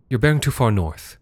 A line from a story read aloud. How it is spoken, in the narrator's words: she said